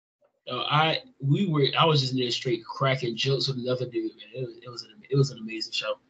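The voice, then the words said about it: Hoarse, strained voice. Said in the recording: “My voice is gone too, so I can't really do it as well. I'm still trying to get my voice back.”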